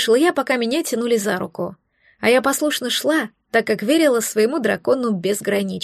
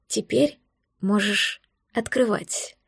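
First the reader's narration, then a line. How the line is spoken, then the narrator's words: Whispered. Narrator (Russian): прошептал Дар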